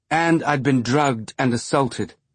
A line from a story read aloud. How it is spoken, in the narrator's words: Monica said, her voice growing hard